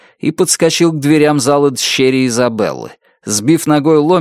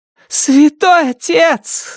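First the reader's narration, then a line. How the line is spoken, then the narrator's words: Shouting. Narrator (Russian): закричала она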